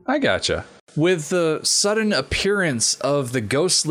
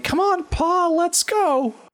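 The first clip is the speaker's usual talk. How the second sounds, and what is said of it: Poor imitation of little girl voice. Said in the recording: “It's a terrible little girl voice, but it's the best I've got.”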